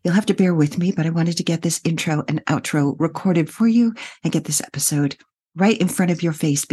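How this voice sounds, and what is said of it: Husky, congested voice from a cold. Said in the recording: “has a cold today, so I'm doing my best Kathleen Turner impression”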